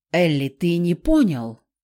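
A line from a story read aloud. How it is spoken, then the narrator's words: Short growl. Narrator (Russian): коротко рыкнул Кик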